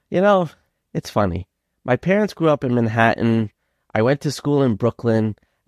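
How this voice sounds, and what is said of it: Brooklyn-Long Island New York accent. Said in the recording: “have noticed ... accent ... I have like this Brooklynese kind of Long Island combination accent”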